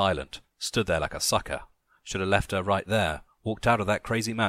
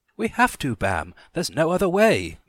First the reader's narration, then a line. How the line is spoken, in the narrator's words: Mimi begged